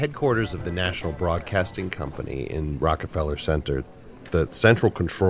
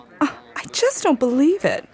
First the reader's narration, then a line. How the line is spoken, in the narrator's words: The girl cried out